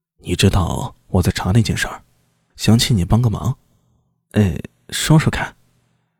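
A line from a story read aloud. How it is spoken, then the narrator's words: Low hushed voice. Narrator (Chinese): 苏大伟压低声音道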